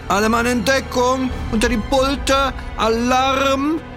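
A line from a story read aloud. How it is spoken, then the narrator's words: Shouted. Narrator (German): schrie er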